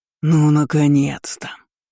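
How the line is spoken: Displeased deep bass voice. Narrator (Russian): Недовольно пробасила тьма

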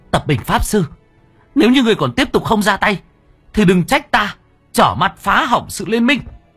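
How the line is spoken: Sudden shout. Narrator (Vietnamese): Bất chợt cô anh hét lên

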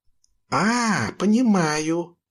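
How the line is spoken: Conspiratorial exclamation. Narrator (Russian): заговорщицки воскликнул Юрка

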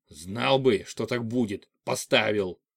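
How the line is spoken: Irritated snap. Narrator (Russian): огрызнулся машинист

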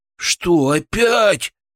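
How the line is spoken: Groaning. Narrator (Russian): простонал Фролов

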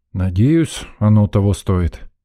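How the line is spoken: Grumbling. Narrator (Russian): пробурчал я

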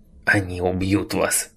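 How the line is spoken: Hoarse voice. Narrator (Russian): Голос его стал хриплым

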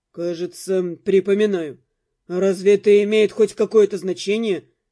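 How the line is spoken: Snorting. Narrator (Russian): Я фыркнула

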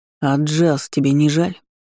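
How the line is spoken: Cold, through teeth. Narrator (Russian): холодно процедил Ивард

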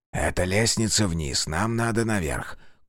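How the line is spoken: Brief whisper. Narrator (Russian): коротко шепнул Монтгомери

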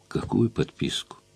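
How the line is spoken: Gentle question. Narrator (Russian): мягко спросил я его

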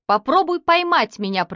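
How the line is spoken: Shouting. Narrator (Russian): прокричал он

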